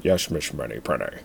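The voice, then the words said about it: Sean Connery impression. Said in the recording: “Start working on your Sean Connery impression now.”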